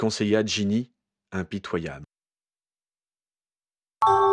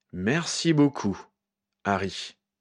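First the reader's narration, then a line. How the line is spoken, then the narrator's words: Plain. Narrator (French): dit Shacklebolt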